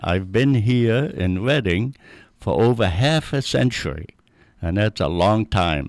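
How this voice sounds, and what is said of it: Noticeable foreign accent. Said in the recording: “you probably can tell I still have the accent.”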